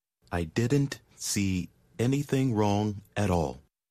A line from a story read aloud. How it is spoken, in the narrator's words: he said at last, slowly